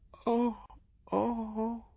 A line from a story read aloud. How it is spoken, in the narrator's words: she broke into little moanings